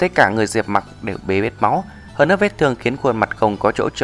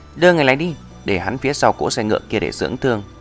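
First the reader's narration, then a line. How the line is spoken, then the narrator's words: Smiling girl. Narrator (Vietnamese): thiếu nữ mỉm cười bỗng lại nói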